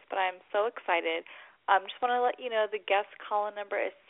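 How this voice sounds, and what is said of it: Voice affected by a cold. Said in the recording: “I have a little bit of a cold, so please excuse my voice”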